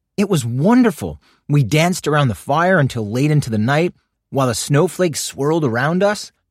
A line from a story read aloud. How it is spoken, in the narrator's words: Bibi told her father excitedly